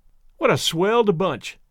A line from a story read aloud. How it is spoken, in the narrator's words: exclaimed Tom Lindsay